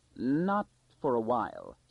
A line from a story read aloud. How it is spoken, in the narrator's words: said Peleus Anthor slowly